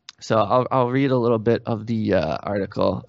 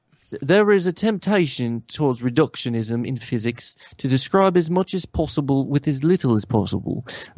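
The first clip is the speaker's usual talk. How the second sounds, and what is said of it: Put-on English accent. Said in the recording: “Is this from England or something? Can I don an accent?”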